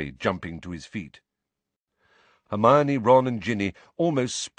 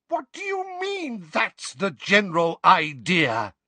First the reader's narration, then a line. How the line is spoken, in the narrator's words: Weasley shriek